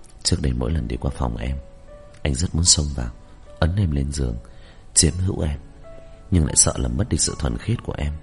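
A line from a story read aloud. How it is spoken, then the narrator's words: Soft, close to ear. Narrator (Vietnamese): Môi hắn đưa đến bên tai tôi, nói nhỏ nhẹ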